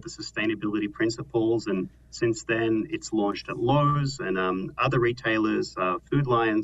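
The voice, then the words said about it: Slight Australian accent. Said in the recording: “It sounds like you have a bit of an Australian accent.”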